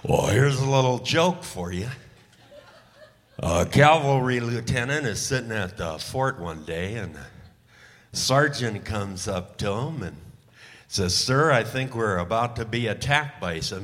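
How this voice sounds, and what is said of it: Imitates another person's voice. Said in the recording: “my impression of John Wayne if he had ever become a stand-up comic”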